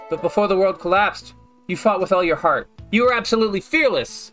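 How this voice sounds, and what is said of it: Reads a female character's voice. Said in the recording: “I can do a better Dan K voice than I can do a Mel voice.”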